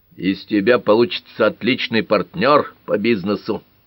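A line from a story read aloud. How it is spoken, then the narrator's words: Grumbling. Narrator (Russian): проворчал Тальбот Фокс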